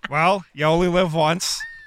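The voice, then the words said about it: Jim Rutherford impression. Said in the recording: “your Jim Rutherford impression? ... Very solid.”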